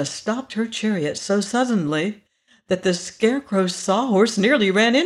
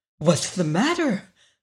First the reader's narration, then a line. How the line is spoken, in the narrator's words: called the Tin Woodman anxiously